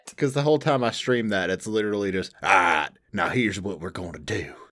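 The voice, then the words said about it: Strong Southern American accent. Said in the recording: “my overly southern accent”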